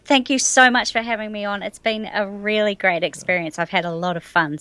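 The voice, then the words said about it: New Zealand accent. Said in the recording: “I love the New Zealander accent”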